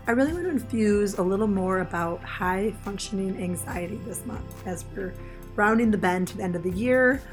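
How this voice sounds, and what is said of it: Hoarse, raspy voice. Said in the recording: “my voice is a little bit rocky ... this rasp”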